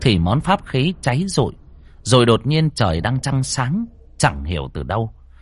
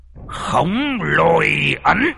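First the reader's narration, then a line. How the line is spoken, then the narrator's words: Shouting. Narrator (Vietnamese): thầy ... quát lên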